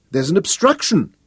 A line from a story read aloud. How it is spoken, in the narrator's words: she cried in disappointment